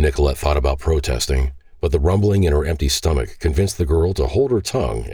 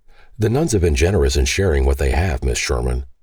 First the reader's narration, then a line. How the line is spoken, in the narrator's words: Hosea answered